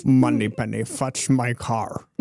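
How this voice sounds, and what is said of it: Poor imitation of another person's voice. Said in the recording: “No, that sounds nothing like. ... That sounds. ... Nothing. Nothing like.”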